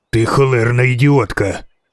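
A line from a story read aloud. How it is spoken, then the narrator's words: Hissed. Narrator (Ukrainian): просичав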